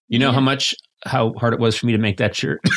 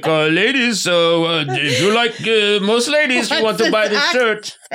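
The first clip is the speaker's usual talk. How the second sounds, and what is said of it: Bad put-on foreign accent. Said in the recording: “I had a bad accent.”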